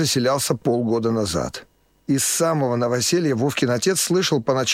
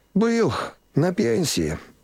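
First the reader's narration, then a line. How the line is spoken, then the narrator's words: Sigh. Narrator (Russian): вздохнул сосед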